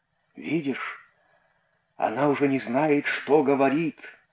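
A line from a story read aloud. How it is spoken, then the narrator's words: Muttered. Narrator (Russian): пробормотал один из сыновей рыбака Ионы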